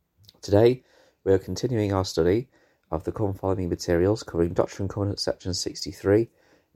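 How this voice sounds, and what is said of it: Voice sounds a bit off. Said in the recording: “my voice is feeling a bit off ... my struggle with my voice”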